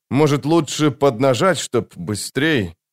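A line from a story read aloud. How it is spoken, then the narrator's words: Mumbled. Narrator (Russian): Промямлил Крокус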